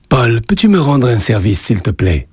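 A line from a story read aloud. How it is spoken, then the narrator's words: Plain question. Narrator (French): demanda-t-il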